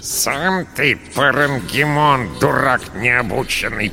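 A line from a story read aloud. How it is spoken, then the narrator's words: Rat's creaky voice. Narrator (Russian): проскрипела крыса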